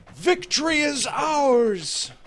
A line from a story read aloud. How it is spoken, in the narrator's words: some of the men shouted